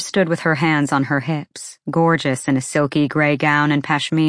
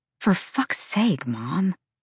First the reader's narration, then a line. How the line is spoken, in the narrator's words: Bryce muttered